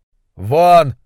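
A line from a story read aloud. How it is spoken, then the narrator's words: Uncontrolled roar. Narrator (Russian): взревел Уортроп, полностью утрачивая самоконтроль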